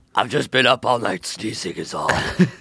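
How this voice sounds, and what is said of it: Gravelly Christian Bale Batman voice. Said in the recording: “Are you doing the Christian Bale Batman voice or Christian Bale cold? ... Sounds like Christian Bale's Batman voice.”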